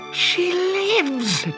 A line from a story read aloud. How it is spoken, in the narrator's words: cried Peter